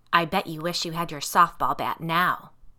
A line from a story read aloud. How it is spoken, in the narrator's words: the Michaelina monster growled, black sludge dripping from her mouth